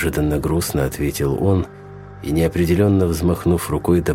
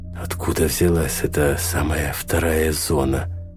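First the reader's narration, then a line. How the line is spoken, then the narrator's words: Eager pressing question. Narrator (Russian): спросил, уже не в силах остановить напор вопросов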